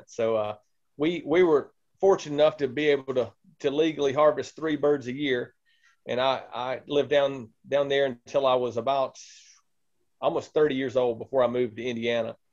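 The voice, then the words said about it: Southern Mississippi accent. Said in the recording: “I grew up in Mississippi, and you might hear in the accent.”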